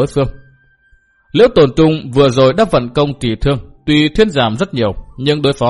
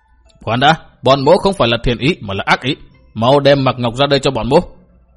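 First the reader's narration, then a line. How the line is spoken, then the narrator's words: Shouted order. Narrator (Vietnamese): quát bảo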